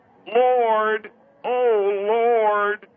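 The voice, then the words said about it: Imitates another person's voice. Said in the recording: “This is John Huston in Chinatown”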